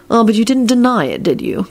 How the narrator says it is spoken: Kingsley countered triumphantly

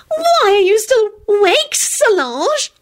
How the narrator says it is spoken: Loretta whined peevishly

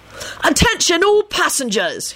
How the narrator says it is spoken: he shouted importunately

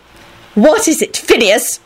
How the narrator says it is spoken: Minerva snapped out irritably

